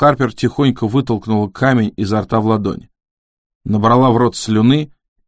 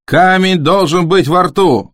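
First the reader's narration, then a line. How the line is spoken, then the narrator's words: Yelling. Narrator (Russian): завопил Нельсон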